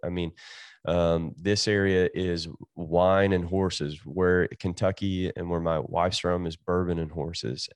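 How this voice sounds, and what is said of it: Eastern Kentucky accent. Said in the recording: “everyone wants to talk with my accent, even though they are from California ... this kid from Eastern Kentucky”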